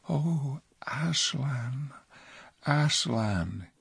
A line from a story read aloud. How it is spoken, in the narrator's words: he whispered